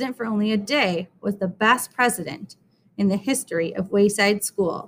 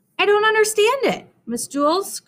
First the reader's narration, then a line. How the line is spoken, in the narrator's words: cried Maurecia